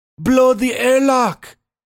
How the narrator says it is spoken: shouted Reese

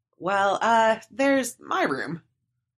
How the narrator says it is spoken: I stammered

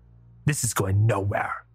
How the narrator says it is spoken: the warden spat

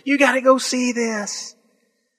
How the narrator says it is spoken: screaming

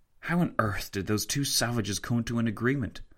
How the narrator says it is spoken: Tancred whispered to Fitzwilliam

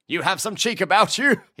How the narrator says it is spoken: he laughed

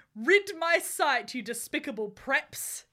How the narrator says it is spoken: he shouted

